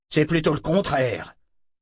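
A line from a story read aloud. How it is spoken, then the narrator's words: Growling. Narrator (French): grogna Ahern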